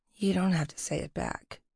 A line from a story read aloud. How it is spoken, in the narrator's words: she mumbled